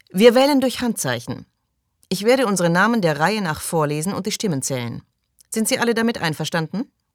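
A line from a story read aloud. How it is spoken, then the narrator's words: Mocking undertone. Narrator (German): In seiner Stimme klang etwas Spöttisches mit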